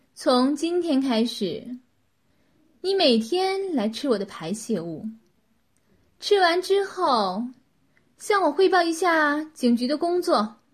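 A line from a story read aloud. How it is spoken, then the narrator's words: Cold, satisfied. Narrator (Chinese): 女子这才满意的微笑了一下，冷冷的说道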